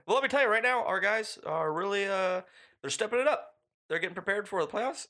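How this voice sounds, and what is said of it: Imitates another person's voice. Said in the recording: “why does Pete Carroll sound like Obama? ... That was pretty good. That was your best Pete ... Obama. ... My Pete Carroll impersonation is Obama strong.”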